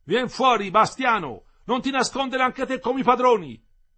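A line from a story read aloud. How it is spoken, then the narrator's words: Shouted. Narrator (Italian): gridò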